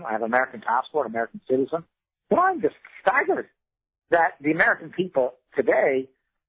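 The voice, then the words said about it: Irish accent. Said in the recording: “As you probably hear from my accent, I came from Ireland”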